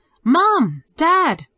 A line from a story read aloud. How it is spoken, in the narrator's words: Peter called out